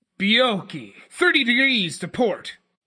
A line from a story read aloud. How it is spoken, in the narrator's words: Yoritomo shouted below